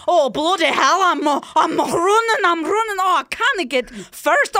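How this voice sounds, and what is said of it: Scottish accent like Groundskeeper Willie. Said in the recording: “Scotland. Because I know you've got a groundskeeper Willie in you. Oh, it's perfect.”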